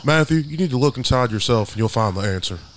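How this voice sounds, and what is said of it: Dr. Phil impression. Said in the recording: “I could do a good impression of Dr. Phil... That is good... It's kind of like my Hank Hill.”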